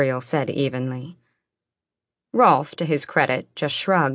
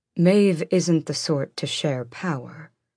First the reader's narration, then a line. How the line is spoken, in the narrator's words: Gavriel cut in calmly